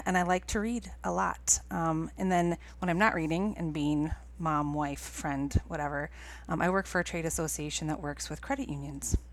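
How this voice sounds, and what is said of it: Midwestern accent with long O's. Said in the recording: “I am... a Midwesterner, grew up in Minnesota ... I couldn't tell by your accent. ... it gets really thick sometimes when my O's get very long.”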